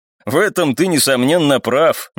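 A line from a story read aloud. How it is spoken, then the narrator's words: Unpleasant short laugh. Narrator (Russian): неприятно хохотнул второй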